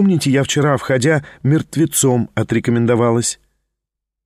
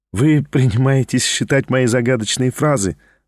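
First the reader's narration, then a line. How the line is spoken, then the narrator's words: Laughing. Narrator (Russian): засмеялась она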